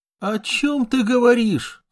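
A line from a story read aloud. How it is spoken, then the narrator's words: Reproachful moan. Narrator (Russian): с упреком простонала Мария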